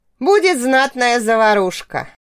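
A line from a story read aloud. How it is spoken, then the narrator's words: Snorting chuckle. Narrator (Russian): хмыкнул Ревн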